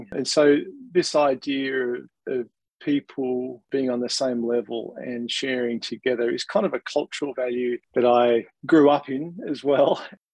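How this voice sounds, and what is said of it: Australian accent. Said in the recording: “you might be able to tell from my accent, but being an Australian”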